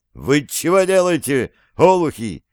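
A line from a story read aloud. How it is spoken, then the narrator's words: Shouting. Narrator (Russian): закричал Андрей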